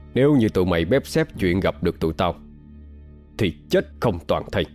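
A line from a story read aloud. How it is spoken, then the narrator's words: Harsh, menacing. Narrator (Vietnamese): gằn giọng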